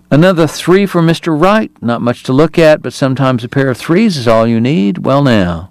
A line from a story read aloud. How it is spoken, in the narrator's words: cried breathlessly when a second ace appeared